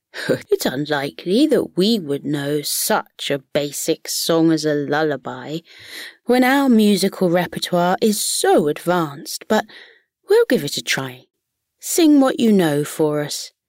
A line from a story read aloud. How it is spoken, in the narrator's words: The frogs chuckled between themselves and haughtily replied